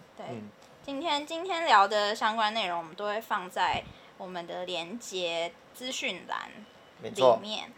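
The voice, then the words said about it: Heavy Taiwanese Mandarin accent. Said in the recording (Chinese): “口音又这么重，台湾口音”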